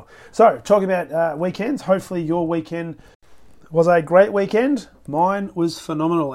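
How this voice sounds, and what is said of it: Hoarse, fading voice. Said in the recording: “losing my voice a little bit today”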